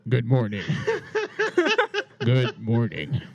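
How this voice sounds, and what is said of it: Radio broadcaster voice. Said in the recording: “Sound like a radio broadcaster.”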